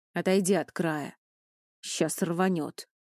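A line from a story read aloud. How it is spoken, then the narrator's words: Grim statement. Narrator (Russian): мрачно сказал он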